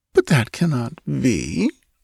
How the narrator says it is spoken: she murmured

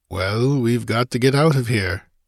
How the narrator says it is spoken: he growled

